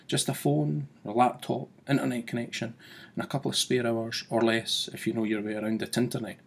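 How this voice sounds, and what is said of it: Speaks with a strong accent. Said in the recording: “my funky accent”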